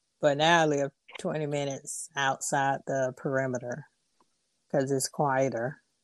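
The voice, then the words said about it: Atlanta Southern accent. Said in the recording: “I'm from Atlanta too ... From my accent, as you can tell.”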